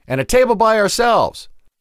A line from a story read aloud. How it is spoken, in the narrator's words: Tanea shouted over the terrible music